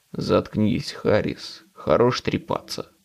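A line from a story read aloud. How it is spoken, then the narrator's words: Grumbling. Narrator (Russian): проворчал агент Уилсон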